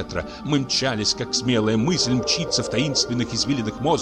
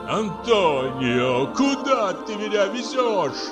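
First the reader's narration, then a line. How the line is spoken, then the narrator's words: Moaning. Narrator (Russian): простонал Теодор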